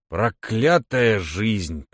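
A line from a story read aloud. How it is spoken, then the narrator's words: Grumbling. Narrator (Russian): проворчал он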